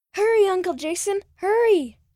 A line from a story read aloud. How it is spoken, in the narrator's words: He shouted